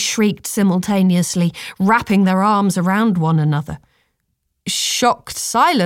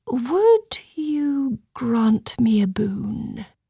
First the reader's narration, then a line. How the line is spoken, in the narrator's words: quietly inquired